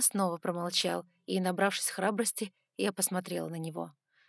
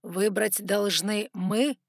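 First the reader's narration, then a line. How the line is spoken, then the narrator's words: Hoarse question. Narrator (Russian): хрипло спросил Саймон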